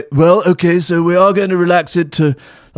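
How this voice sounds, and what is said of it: Poor Boris Johnson impression. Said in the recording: “That's a terrible Boris impression.”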